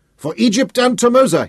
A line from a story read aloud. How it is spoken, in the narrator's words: shouted